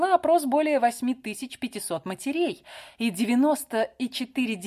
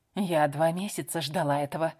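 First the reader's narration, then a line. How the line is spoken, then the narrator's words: Confiding whisper. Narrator (Russian): доверительно шепнула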